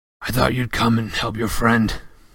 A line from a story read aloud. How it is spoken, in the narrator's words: he said hoarsely